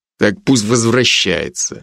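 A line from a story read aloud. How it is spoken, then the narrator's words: Grumbling rector. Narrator (Russian): буркнул ректор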